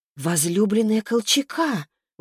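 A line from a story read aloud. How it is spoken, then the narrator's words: Stunned exclamation. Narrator (Russian): воскликнула ошарашенная Таисия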